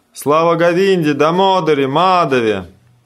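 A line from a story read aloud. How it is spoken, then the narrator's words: Crowd shouting. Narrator (Russian): все присутствующие закричали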